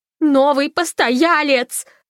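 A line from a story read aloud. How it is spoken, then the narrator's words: Yelling. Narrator (Russian): завопила Фанни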